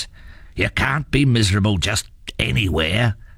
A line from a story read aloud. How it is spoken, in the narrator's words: growled his father